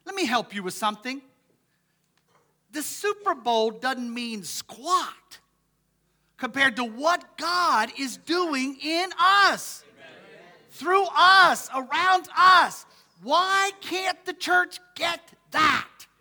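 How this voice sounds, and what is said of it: Yelling, loud impassioned preaching. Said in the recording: “I'm not yelling at you. I'm yelling at us.”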